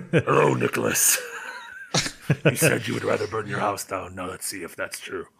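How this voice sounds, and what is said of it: Bad impression of a horror villain. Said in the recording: “That was a really bad impression of the Saw guy. I wish I could do a better impression of the Saw guy.”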